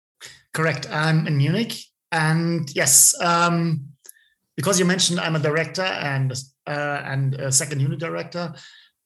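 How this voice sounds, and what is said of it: German accent, not American. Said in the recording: “you do not have an American accent. You are from Germany.”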